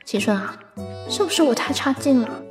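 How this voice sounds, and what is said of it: Quiet, hushed question. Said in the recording (Chinese): “小声问”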